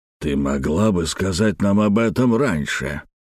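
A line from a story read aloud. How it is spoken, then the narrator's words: Grumbling. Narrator (Russian): проворчал Беллами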